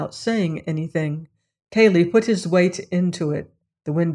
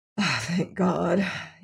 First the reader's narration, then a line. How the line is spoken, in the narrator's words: he murmured